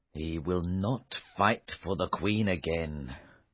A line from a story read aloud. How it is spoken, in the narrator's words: King Arthur said bitterly